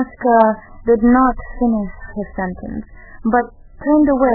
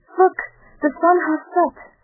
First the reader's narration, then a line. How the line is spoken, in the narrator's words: exclaimed, with grieved astonishment